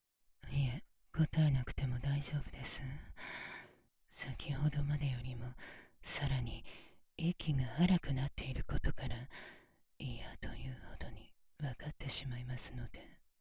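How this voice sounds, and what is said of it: Whispering. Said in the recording (Japanese): “こうしてささやきながら”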